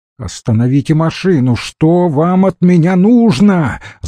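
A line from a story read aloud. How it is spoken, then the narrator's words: Shouting. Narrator (Russian): закричал Курочкин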